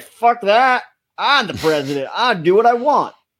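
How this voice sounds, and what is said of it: Southern oil-tycoon style drawl. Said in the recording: “Great Biden impersonation, by the way. ... He sounded exactly like a southern oil magnet.”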